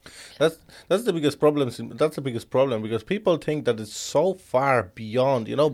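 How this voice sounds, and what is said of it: Strong foreign accent in English. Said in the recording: “a bloody foreigner with no fucking English ... the second worst accent on social media ... People give me so much stick for my accent”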